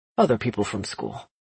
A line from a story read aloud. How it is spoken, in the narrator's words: he quickly added